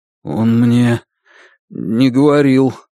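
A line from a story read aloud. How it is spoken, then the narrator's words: Strained, forced out. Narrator (Russian): сумел выдавить из себя Лун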